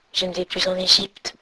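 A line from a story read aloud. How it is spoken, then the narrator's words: Weak murmur. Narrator (French): murmura faiblement sa fidèle amie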